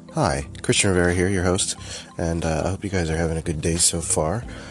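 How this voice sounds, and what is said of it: Quiet, slightly whispered sick voice. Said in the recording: “I'm slightly whispering because, well, I'm still kind of sick ... I guess I don't feel the need to be loud”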